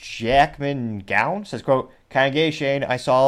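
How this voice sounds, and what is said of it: Usual voice. Nothing is said of it.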